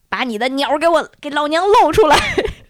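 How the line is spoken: Fierce girls shouting. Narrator (Chinese): 有几个呃凶恶的女孩子在大声的冲他喊

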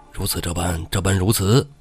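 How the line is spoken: Whispering in ear. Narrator (Chinese): 唐龙凑到宋江耳边，嘀嘀咕咕

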